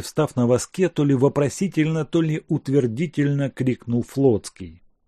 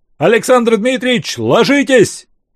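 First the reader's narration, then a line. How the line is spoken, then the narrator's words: Desperate shout. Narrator (Russian): отчаянно закричал лейтенант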